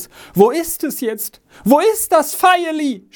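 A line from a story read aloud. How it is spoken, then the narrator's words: Crying out again. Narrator (German): schrie Jos wieder auf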